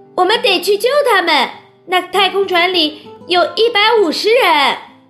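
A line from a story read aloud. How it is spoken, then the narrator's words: Shouted. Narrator (Chinese): 查理叫道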